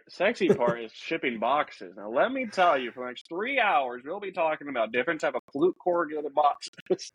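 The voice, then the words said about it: Put-on hick southern accent. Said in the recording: “get like a hick accent when you started talking about corrugated boxes ... if you put a southern accent to it”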